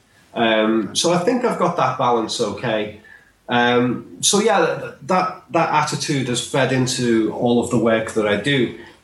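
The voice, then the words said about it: Mild Scouse accent. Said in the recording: “my Scouse accent is actually quite tame compared to a lot of the accents in this city ... I've tried to tone that down, the accent, a little bit”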